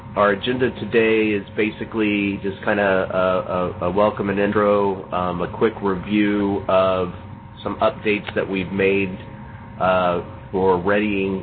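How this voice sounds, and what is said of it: Unwell, run-down sounding voice. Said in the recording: “I'm only operating on about two cylinders of my normal Ferrari 10 cylinders. In fact, you can hear it in my voice”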